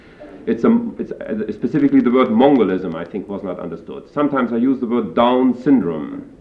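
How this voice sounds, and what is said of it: Foreign-accented English, some mispronunciations. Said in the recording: “I don't express some of my words appropriately ... maybe my accent is responsible for the mispronunciation”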